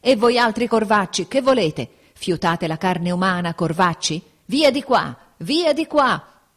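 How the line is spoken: Sick man shouting. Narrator (Italian): scorgendo le vesti nere, l'infermo gridava

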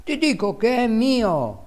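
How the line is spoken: Exclaiming. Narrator (Italian): esclamava

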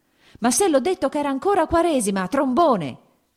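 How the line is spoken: Shouted. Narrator (Italian): gridò

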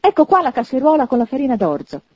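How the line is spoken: Exclaimed, rousing himself. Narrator (Italian): esclamò, riscuotendosi

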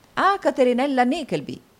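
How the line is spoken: Three voices exclaiming together. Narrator (Italian): esclamarono gli altri tre

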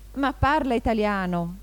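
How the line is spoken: Exclamation. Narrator (Italian): esclamò l'aquilotto

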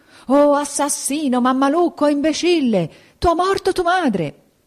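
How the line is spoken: Desperate screaming. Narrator (Italian): a urlare, a strapparsi i capelli per la disperazione

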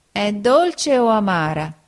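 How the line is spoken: Whining question. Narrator (Italian): Pinocchio dimanda con voce di piagnisteo

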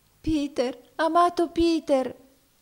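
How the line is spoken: Tearful exclamation. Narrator (Italian): esclamò essa in pianto

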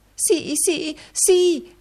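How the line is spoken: Wife exclaiming. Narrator (Italian): esclamò la moglie

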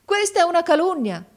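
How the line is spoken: Exclaimed. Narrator (Italian): esclamò mio fratello

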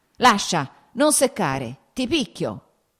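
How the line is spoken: Shout. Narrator (Italian): gridò

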